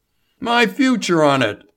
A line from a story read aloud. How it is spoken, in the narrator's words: Label cried